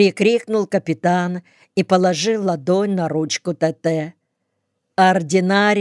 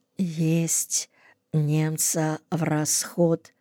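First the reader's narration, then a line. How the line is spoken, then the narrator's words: Barely audible exhausted whisper. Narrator (Russian): Сашка, уже обессиленный этим неравным поединком, прошептал чуть слышно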